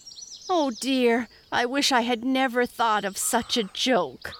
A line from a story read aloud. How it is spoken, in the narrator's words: moaned Peter